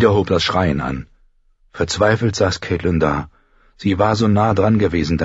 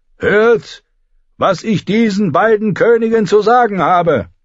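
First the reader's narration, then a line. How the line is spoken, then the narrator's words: Echoing male shout. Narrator (German): rief er, und seine Stimme hallte vom Gebälk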